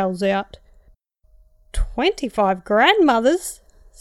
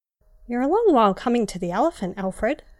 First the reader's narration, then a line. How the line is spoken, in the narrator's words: I said